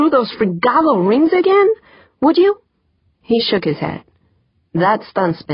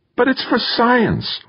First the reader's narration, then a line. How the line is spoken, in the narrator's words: Wonderly pleaded